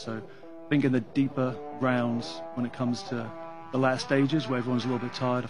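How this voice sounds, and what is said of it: English accent. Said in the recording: “Heck of an English accent”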